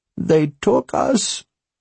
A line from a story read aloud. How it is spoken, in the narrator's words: her voice broke, but only that once